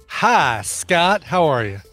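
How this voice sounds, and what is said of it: Drawling put-on character voice. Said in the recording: “Stepping into a Randy Deluxe drawl there ... I use that voice every week”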